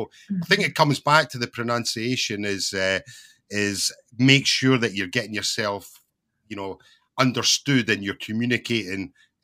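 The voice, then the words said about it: Scottish accent. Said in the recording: “I come from Britain, but I have a Scottish accent ... it's not the typical RP English accent”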